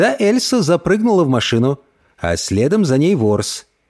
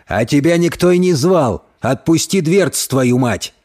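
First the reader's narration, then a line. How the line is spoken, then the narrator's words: Gruff bark. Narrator (Russian): гаркнул Альф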